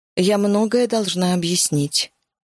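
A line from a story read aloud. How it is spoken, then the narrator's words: Plain. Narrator (Russian): сказала она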